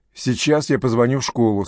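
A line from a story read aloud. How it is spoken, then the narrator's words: Plain. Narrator (Russian): сказала Сакс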